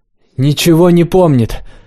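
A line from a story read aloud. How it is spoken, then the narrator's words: Shouted reply. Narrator (Russian): прокричал в ответ Миша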